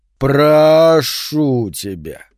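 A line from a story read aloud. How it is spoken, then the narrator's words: Drawn out. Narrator (Russian): протянул Сентябрь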